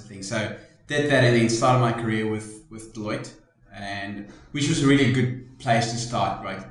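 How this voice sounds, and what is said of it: South African accent. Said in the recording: “as you can tell from the accent, from South Africa originally”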